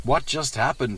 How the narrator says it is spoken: asked

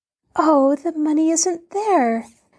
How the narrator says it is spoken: Nancy exclaimed in bitter disappointment

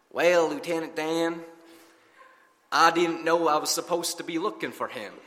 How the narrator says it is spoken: Forrest, in his slow southern drawl, replies

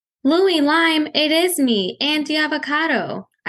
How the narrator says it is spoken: I cried

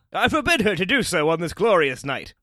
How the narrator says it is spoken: shouted, laughing

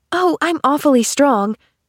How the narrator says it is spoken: declared Pollyanna cheerfully

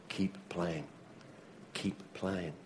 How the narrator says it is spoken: he whispered in his ear

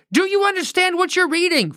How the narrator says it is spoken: Philip yelled up at the man

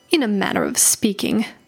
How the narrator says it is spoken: he snorted

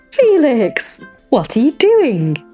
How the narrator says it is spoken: asked, trying to stifle their giggles

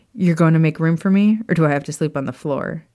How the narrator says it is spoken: Sirius chuckled

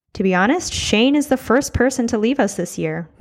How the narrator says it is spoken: Todd said

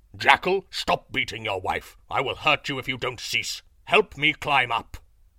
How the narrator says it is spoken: Lion roared

